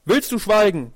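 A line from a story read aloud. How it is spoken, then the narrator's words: Shouted. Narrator (German): rief die Katze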